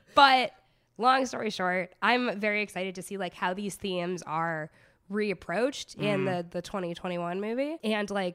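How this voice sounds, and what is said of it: Hoarse, congested voice. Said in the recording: “as you can hear, sorry, this cold is like really kicking my ass or my voice box's ass ... Everything is a mess in my voice box”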